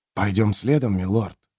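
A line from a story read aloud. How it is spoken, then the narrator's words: Whisper. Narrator (Russian): прошептал Джемис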